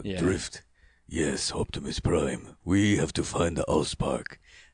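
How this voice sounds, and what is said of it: Transformers character voice. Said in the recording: “doing a voice ... I did scratch dialogue for Drift in Michael Bay's Transformers movie”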